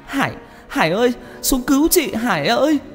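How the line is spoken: Terrified wailing scream. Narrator (Vietnamese): Hồng sợ hãi tột độ, chị gào khóc thảm thiết, hét lớn

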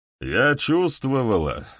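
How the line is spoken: Plain. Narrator (Russian): говорит она

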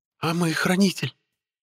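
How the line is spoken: Timid girl's voice. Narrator (Russian): Робко осведомился у меня девичий голос

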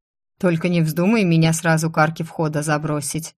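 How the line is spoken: Smirking snort. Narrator (Russian): хмыкнул некромант

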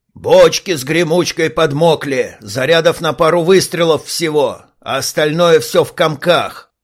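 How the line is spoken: Growling. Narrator (Russian): прорычал

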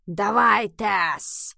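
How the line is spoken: Hissing. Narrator (Russian): его шипение

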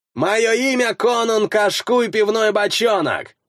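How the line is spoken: Yelled back. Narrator (Russian): заорал в ответ Скальд

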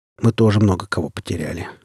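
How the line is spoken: Sighing. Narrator (Russian): вздохнул он

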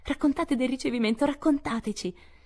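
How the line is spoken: Sleepy, eager voices exclaiming. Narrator (Italian): due voci assonnate ma ansiose esclamare

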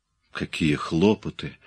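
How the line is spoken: Displeased grumble. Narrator (Russian): недовольно пробурчал Имре

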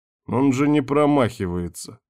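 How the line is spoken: Pleased chuckle. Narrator (Russian): хохотнул довольно Ярван

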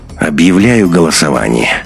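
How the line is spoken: Tired interrupting. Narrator (Russian): усталым голосом перебил Беленина Андрей

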